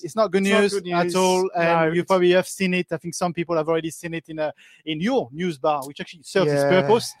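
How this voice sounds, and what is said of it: French accent in English. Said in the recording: “My accent is very French in English”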